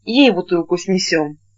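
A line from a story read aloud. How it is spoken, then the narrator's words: Flustered mumbling. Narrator (Russian): Федя спохватился, что пришел с другим, и забормотал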